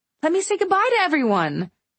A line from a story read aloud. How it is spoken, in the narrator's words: I cried out, flustered